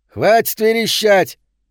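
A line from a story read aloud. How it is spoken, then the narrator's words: Shout from corridor. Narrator (Russian): крикнул кто-то в коридоре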